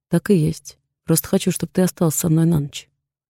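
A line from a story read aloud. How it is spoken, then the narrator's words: Casual everyday tone. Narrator (Russian): продолжает он говорить будничным голосом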